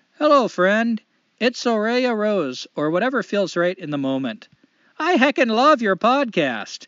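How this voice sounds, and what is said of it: Light put-on Canadian accent. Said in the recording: “I'm going to try to do a light Canadian accent this time.”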